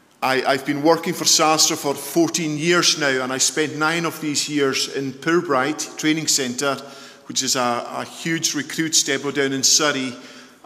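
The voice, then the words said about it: Scottish Isle of Lewis accent. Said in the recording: “I come from the Isle of Lewis. I hope you're able to understand my dulcet tones and my accent.”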